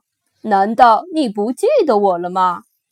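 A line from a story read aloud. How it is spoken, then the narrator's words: Laughing. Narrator (Chinese): 叔叔大笑着说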